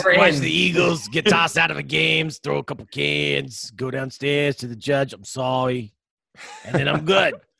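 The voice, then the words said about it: Bad put-on Philly or Jersey accent. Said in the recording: “Don't talk like anybody from Philly or Jersey. That's horrible accent. ... I don't know what accent that was”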